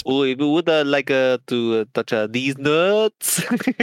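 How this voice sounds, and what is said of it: Put-on French accent. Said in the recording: “do that like in a French accent”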